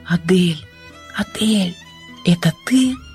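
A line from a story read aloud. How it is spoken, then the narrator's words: Quiet whisper. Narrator (Russian): тихий шепот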